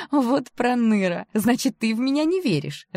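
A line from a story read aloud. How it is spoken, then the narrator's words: Laughing. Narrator (Russian): рассмеялась я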